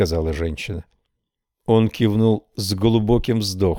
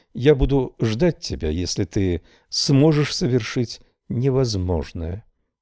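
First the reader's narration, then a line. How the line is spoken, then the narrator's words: Barely audible murmur. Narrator (Russian): проговорила она так тихо, что слова были слышны ей одной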